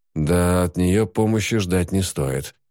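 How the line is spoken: Gloomy conclusion. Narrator (Russian): мрачно заключил Ноиль

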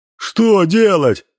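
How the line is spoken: Shouted. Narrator (Russian): закричал Никодим

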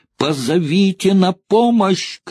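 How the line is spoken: Shouting. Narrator (Russian): крикнула Элайн

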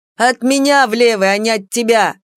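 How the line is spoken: Barking, ghostly. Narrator (Russian): рявкнул призрак

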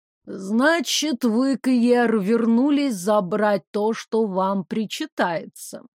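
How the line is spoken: Slow, measured speech. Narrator (Russian): медленно проговорила она

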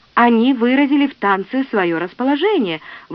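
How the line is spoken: Exclamation, elderly singer. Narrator (Russian): воскликнул старейший песнопевец

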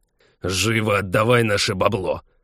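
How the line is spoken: Impatient growl. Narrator (Russian): Нетерпеливо рыкнул второй

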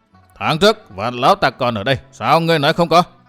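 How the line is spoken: Angry shout. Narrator (Vietnamese): Sắc mặt xa sầm, Tà Kiếm quát

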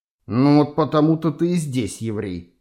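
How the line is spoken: Grumbled. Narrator (Russian): проворчал майор

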